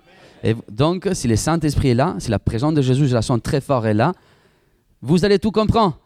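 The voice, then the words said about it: Strong Italian accent in French. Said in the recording (French): “j'ai un accent très fort italien”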